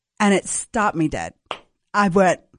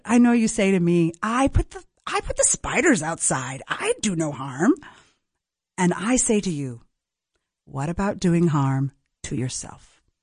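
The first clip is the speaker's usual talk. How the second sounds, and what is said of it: Imitated Argentinian accent. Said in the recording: “she was Argentinian, so she had this accent.”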